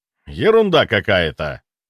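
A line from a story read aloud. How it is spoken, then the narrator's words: Humorless snort. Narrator (Russian): хмыкнул Грибоедов, но ему не было смешно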